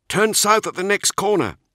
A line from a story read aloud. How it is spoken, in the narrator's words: he called out to his squad